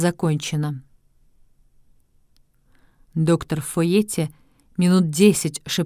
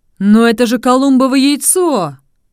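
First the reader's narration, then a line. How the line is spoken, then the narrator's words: Joyful exclamation. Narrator (Russian): радостно воскликнул сеньор Альфио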